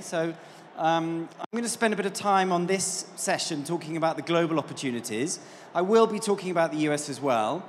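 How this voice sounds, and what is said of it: British English accent. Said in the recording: “as you can probably tell from my accent, I'm not from these parts. I'm from the UK.”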